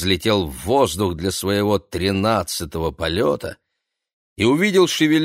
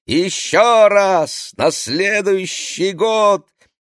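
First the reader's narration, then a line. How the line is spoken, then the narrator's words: Shouting. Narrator (Russian): Номи закричала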